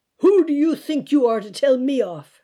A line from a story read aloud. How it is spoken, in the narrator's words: shouts the man